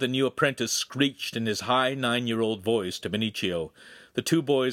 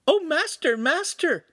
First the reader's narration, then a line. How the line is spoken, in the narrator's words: Pippo squeaked happily